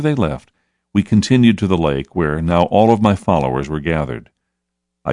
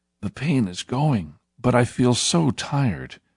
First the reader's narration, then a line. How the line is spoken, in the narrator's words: said weakly